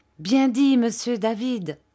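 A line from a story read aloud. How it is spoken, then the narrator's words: Enthusiastic exclamation. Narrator (French): s'écria Ham avec enthousiasme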